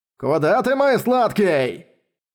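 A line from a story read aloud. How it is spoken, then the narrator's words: Shout. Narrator (Russian): закричал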